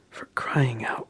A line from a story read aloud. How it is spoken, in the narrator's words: whispered, but he cut himself off